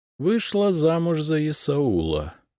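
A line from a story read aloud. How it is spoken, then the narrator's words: Thoughtful drawl. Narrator (Russian): задумчиво протянула Александра Федоровна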